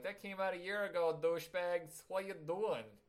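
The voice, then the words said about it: Poor put-on accent, maybe Brooklyn. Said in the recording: “that a terrible Russian accent? ... No, that was Brooklyn.”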